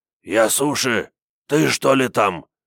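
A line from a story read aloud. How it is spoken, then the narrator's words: Hoarse question. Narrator (Russian): спросил он хриплым голосом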